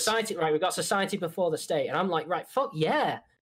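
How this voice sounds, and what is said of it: English accent, somewhat posh. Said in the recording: “your accents ... your poshy accents ... it sounds English enough”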